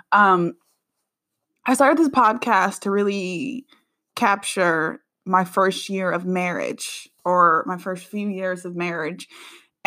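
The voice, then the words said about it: Sick-sounding, unusual voice. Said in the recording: “I'm a little under the weather. So if my voice sounds crazy, I'm sorry.”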